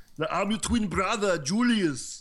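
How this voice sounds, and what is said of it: Horrible put-on Austrian accent. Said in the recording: “a horrible Austrian accent”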